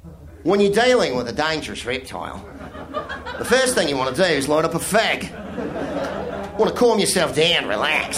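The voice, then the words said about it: Put-on Australian accent. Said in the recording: “I'm doing an Australian accent ... It's my idea of an Australian accent”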